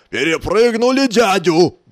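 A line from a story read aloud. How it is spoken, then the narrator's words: Roared. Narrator (Russian): взревел Балабон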